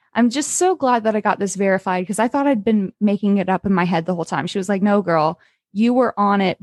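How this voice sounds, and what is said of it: Usual voice. Nothing is said of it.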